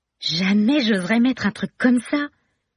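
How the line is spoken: Exclaiming. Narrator (French): s'exclame

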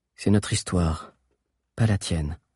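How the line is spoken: Calm, cold voice. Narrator (French): fit Zizo d'une voix calme et froide

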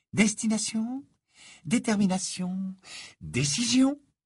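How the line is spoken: Murmuring. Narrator (French): murmura

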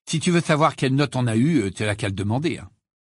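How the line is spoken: Curt. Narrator (French): dit sèchement Ron

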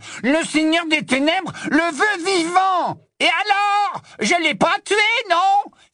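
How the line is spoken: Exclaimed. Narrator (French): s'écria Crabbe

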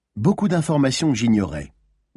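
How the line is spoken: Plain. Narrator (French): répondit Maline

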